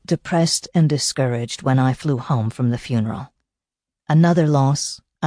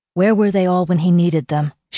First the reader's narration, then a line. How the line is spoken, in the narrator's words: she said bitterly